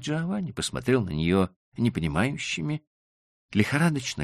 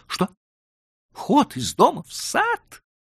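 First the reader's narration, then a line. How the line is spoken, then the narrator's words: Joyful exclamation. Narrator (Russian): воскликнул обрадованный Джованни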